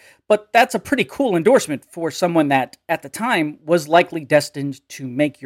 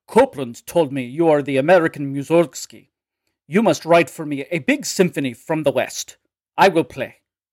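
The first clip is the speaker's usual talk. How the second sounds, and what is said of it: Put-on Russian accent. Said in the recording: “Excuse my Russian accent”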